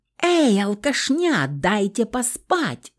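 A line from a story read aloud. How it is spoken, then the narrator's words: Shrieking. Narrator (Russian): завизжала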